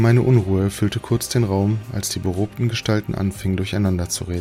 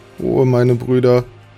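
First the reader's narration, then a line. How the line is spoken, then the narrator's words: Calling out. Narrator (German): rief der Illuminator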